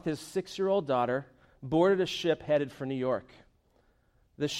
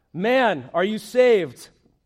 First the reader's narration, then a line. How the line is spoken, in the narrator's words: He called out